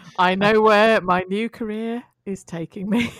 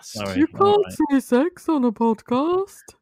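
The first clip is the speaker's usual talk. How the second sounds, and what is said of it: Impersonation of a co-host. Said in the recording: “another incredible impersonation of Kerry Borbis”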